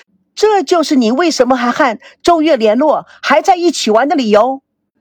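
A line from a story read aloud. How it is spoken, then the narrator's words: Frenzied shout. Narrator (Chinese): 他又疯狂的……大叫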